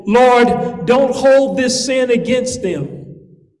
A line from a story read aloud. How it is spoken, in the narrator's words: he shouted